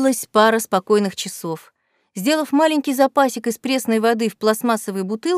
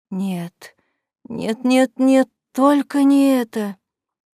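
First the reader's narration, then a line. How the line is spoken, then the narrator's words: Woman moaning. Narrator (Russian): простонала она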